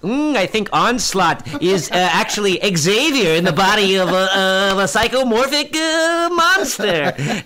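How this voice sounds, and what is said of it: Woody Allen impression. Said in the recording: “his Woody Allen impression”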